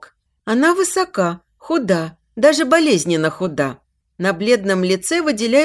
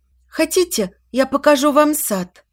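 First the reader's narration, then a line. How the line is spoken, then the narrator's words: Slightly trembling voice. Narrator (Russian): Чуть дрогнувшим голосом произнесла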